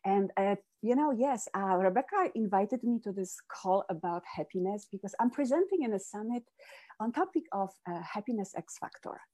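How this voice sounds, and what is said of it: Polish accent in English. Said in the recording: “as you hear from this accent, I wasn't born here. I am originally from Poland.”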